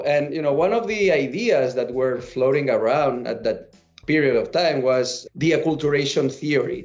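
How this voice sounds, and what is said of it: Catalan-accented English. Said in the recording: “i'm not for here from here obviously by my accent right i'm a, I'm a catalan”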